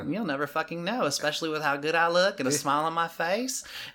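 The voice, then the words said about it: Southern American accent. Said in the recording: “You can say anything with that accent, it'll sound good ... that fucking accent will win your heart over ... Southern accent, it's like butter.”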